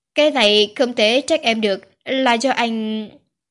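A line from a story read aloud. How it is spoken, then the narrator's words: Loud voice. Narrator (Vietnamese): Quý Hoài lớn tiếng nói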